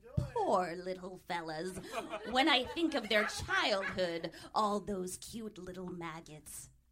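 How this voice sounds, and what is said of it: Crypt Keeper impression. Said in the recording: “He's the voice of the Crypt Keeper ... here's us trying to be that ... do his voice”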